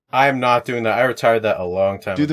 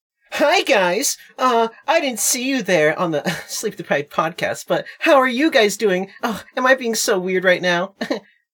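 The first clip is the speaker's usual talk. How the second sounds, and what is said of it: Anime-style character voice. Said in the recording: “my anime impression ... That sucked.”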